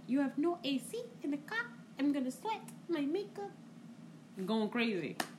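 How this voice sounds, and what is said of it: Imitates another person's foreign accent. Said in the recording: “had no filter with her accent.”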